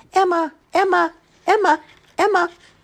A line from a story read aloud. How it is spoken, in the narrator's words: four calling birds who called out